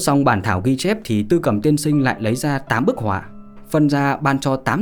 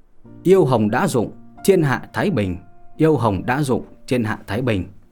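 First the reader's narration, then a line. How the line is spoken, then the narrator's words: Laughing loudly, repeating. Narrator (Vietnamese): chợt vỗ tay cười lớn, liên tục nói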